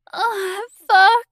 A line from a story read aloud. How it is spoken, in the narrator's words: whimpered